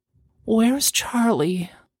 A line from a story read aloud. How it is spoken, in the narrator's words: She hated how her voice quivered as she said